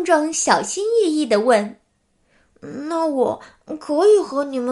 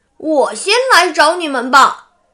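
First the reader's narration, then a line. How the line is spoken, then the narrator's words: Loud. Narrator (Chinese): 壮壮很大声的说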